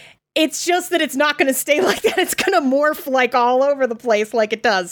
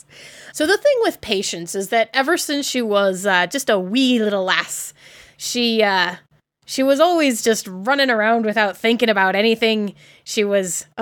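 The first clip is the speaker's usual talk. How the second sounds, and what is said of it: Put-on character accent. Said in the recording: “oh God, I'm doing an accent. ... That was really good.”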